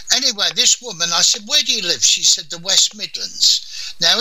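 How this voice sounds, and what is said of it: Usual voice. Nothing is said of it.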